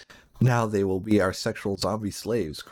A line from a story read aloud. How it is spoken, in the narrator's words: cried the mad hippie